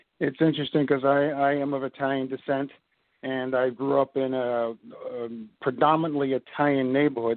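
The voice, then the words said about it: Brooklyn New York accent. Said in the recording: “you're not from the South down here in the Carolinas... you are from the South, but it's South Brooklyn... you never lost the accent”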